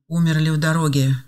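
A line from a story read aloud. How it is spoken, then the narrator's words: Flat colorless voice. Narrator (Russian): бесцветным голосом сообщили бедные матери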